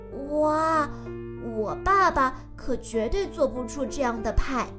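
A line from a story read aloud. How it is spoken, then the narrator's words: Amazed exclamation. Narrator (Chinese): 杰米盯着派惊叹道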